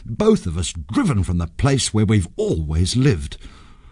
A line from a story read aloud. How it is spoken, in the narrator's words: muttered Sanjay